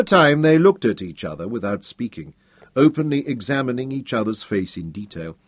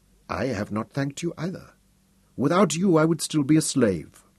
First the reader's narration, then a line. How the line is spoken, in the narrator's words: She smiled softly and said